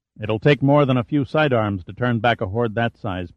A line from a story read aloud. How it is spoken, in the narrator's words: Pitt said